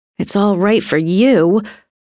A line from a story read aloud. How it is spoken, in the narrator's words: Frances grumbled